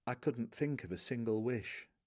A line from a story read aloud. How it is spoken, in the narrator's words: Covering his mouth with the back of his hand, as if he wants to pass on something confidential, he whispers